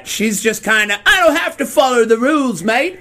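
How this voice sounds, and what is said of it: Put-on British accent. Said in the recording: “I imagine she's gonna have a British accent.”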